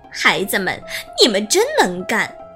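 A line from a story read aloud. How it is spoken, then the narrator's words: Cheerful, grinning. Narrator (Chinese): 笑嘻嘻的对匹诺曹和小灯芯说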